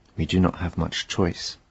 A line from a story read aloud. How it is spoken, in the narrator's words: Odysseus answered calmly